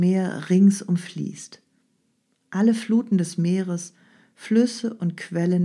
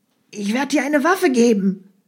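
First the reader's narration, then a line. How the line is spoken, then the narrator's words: Angry shout. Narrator (German): rief Gaia in ihrem Zorn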